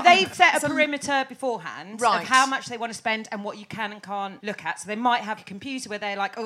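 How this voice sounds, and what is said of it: Usual voice. Nothing is said of it.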